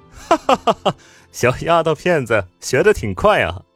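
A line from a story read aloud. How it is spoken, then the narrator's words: Loud laughter. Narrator (Chinese): 白思年哈哈大笑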